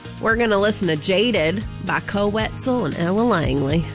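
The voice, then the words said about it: Put-on Virginia accent. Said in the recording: “give us your best Virginia accent here”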